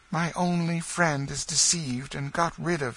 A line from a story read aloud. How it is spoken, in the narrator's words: he said